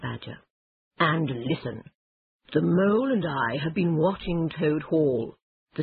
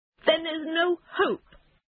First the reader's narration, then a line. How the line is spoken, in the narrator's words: cried Toad miserably